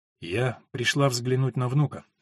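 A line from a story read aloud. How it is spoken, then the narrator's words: Calm. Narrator (Russian): спокойно сказала она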